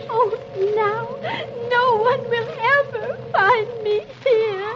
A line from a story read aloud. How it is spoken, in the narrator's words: And Alice cries